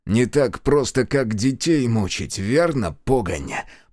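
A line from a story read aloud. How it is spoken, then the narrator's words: Hiss. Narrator (Russian): прошипел Платонов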